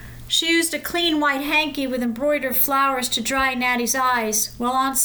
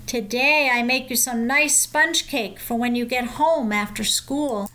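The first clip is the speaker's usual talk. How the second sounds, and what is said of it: Murmured Yiddish accent. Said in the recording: “murmured in a Yiddish accent”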